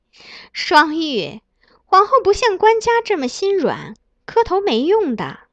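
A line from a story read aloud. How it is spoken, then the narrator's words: Soft mocking laugh. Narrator (Chinese): 一旁的张美人倒是看得轻笑出声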